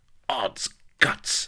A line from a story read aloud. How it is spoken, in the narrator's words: she hissed